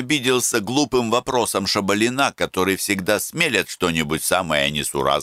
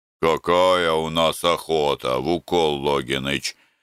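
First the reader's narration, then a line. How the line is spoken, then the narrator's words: Displeased tone. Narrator (Russian): ответил Брагин недовольным тоном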